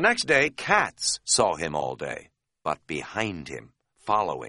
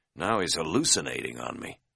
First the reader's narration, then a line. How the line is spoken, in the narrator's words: he muttered privately